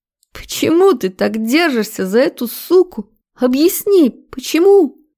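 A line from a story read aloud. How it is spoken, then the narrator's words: Hysterical shrieking. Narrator (Russian): Визжал в истерике Круглова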